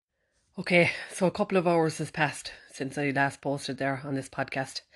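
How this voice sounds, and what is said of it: Out of breath, panting speech. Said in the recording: “can you hear that? I'm out of breath. ... I've walked up all the stairs.”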